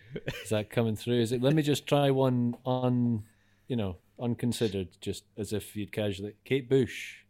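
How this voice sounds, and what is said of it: Aberdonian Scottish accent. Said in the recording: “That's that Aberdonian accent powering through ... It's just not going away ... Quite a plosive B ... It's the ooh.”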